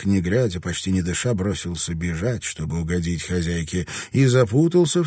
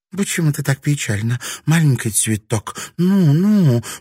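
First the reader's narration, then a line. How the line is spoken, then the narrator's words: Tender cooing. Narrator (Russian): проворковала Кику, заботливо вытирая ей слезы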